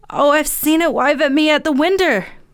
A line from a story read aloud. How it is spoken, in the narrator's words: wailed the boy